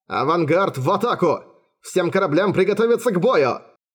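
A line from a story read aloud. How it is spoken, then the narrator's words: Shouted. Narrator (Russian): Вице-адмирал крикнул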